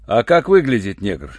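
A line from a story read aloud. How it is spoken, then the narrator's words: Rude question. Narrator (Russian): грубо спросил Руальд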